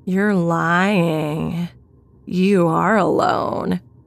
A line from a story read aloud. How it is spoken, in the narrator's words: he grinned at me and in a disgusting, almost singing voice, he said